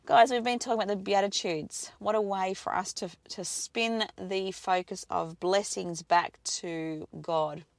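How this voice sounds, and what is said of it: Strained, fading voice. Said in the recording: “I do apologise as to this morning. I'm losing my voice”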